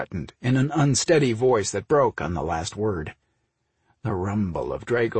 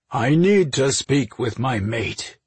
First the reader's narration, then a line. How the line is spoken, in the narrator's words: he said in a gruff tone